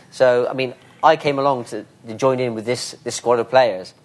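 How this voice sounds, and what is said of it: Bristolian English accent. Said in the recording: “my Bristolian accent”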